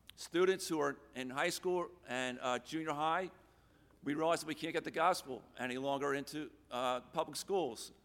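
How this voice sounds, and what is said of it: Hoarse, strained, fading voice. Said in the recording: “I'm losing my voice.”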